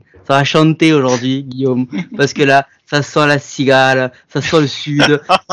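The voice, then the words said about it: Poor fake southern French accent. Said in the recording (French): “C'est mon accent mais il est dégueulasse ou pas ... c'est un accent du sud, mais tu sais qu'il n'y a pas de région particulière.”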